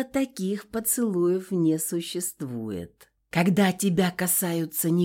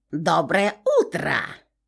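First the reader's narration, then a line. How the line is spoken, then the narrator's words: Shrill ringing voice overhead. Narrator (Russian): прозвенел над головой визгливый голос Моры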